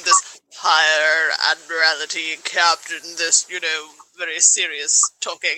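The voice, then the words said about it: Put-on serious British accent. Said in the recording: “I don't know why I'm bringing out a British accent for seriousness”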